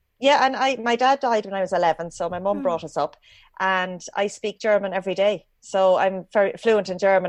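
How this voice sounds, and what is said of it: Rural Irish accent. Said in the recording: “the Irish accent ... we call a culchy accent, which is a country accent in Ireland ... when I speak English, I sound like a real Irish person.”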